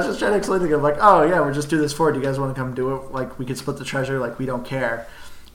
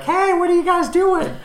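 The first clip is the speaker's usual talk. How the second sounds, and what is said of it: Imitates a young kid's voice. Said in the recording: “You like my 12-year-old impersonation there? ... I'm still trying to do this 12-year-old impression. I'm failing at it.”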